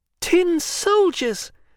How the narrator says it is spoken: a little boy cried

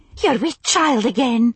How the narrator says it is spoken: cried in her excitement

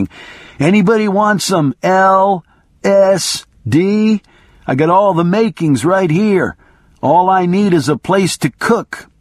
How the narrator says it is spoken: a road person came in shouting

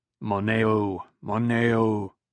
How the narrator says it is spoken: Leto said, his voice low and resonant

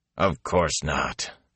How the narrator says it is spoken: Elias growled

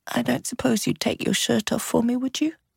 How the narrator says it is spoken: She murmured

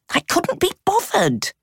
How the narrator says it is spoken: she snapped

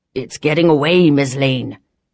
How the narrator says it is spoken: Barons growled behind me

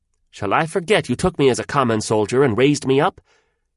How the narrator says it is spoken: the hawk said loudest of all

